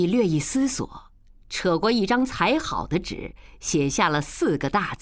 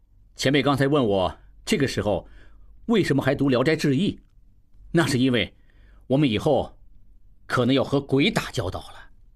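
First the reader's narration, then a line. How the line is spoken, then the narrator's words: Laughing. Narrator (Chinese): 应季…笑道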